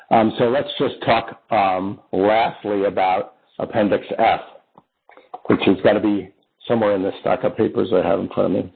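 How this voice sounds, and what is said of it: Tired, worn-out voice. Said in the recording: “when people run out of gas. And as you can tell by my voice, that's happened here.”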